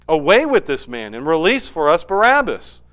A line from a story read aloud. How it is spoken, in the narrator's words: they cried out altogether, saying